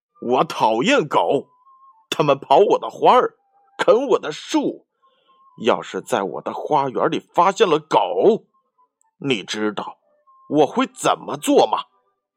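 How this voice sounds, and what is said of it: Roaring, angry shouting voice. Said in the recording (Chinese): “他用怒吼般的声音说”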